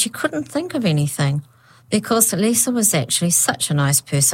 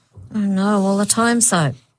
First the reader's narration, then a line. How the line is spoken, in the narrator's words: Lisa moaned